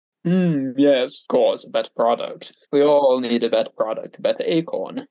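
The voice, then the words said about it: Convincing put-on British accent. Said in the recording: “Too natural. It's too natural from them... a British accent... I thought it was really good and like too natural... I didn't know you had chops like that”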